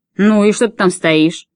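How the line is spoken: Barking. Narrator (Russian): рявкнул на нее дядя

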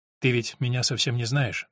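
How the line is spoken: Raised, desperate objection. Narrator (Russian): возразил он, повысив голос и с отчаянием сознавая, что не может спокойно вести беседу

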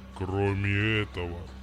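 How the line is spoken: Rattling bass. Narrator (Russian): продолжил дребезжащим басом мерцающий камень

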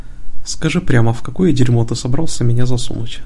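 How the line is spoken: Gloomy question. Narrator (Russian): мрачно поинтересовался Дэвид

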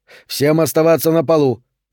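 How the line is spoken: Sharp command. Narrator (Russian): резко скомандовал Тру

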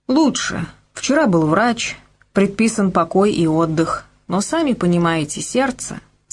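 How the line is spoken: Plain. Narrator (Russian): сказал я

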